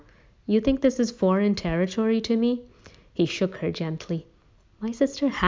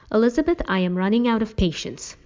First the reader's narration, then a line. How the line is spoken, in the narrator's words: Uncle Will snapped